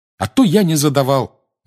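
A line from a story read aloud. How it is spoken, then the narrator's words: Indignant exclamation. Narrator (Russian): негодующе воскликнул Гарри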